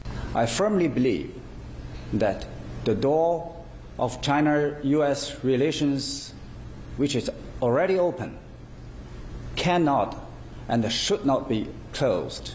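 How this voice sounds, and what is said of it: Chinese-accented English, slight accent. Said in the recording (Chinese): “很清楚的，应该是一个华人在讲英文。 ... 有点口音”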